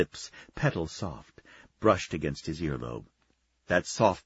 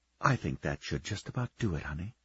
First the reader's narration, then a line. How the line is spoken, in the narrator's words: she whispered